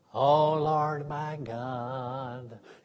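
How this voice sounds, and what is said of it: Small whiny singing voice. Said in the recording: “this little whiny voice that was kind of like this”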